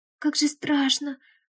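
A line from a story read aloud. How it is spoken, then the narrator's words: Moaned. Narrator (Russian): простонала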